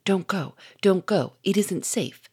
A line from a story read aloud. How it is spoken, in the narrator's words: said Victor in a whisper